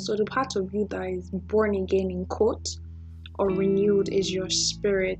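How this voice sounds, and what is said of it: Congested voice with a cold. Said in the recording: “I think I have a cold, so don't mind my voice this night.”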